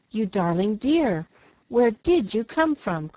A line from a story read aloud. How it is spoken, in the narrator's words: cried Jill